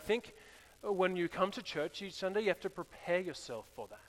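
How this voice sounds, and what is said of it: Australian accent. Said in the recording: “It's got the Australian accent. I can't understand him.”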